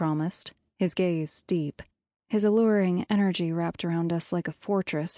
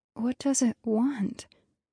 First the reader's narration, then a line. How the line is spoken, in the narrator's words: asked, my voice shaking